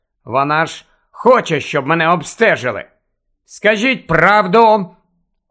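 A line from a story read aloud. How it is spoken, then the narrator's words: Last words shouted. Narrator (Ukrainian): Останні два слова він викрикнув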